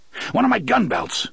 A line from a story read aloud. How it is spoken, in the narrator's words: the gunslinger panted harshly